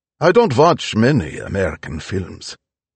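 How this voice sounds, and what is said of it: Pronounced German accent. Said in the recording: “with a pronounced German accent”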